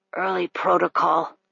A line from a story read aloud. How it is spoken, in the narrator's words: he rasped